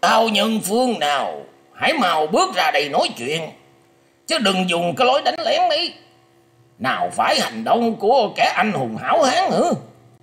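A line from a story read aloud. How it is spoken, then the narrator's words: Harsh loud old man shout. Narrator (Vietnamese): Lão già che mặt gằn giọng quát to lên rằng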